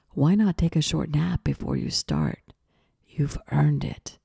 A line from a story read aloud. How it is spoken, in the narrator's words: whispered seductively